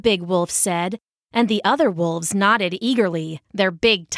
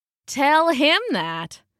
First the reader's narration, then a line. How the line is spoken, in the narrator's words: the big wolf said with a sneer